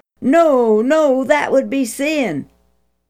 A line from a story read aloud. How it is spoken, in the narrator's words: Aaron would have cried out